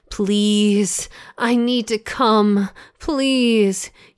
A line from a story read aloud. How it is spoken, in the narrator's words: whimpered